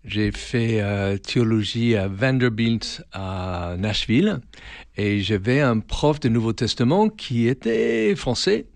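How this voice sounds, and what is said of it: Slight foreign accent in French. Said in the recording (French): “ça s'entend, hein, j'ai un petit accent”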